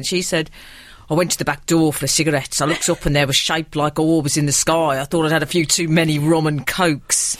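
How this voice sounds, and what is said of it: Birmingham accent, Adrian Chiles impression. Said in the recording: “I can only do Adrian Charles's accent when I do a Birmingham accent, so it will sound rather masculine ... very good Adrian Charles”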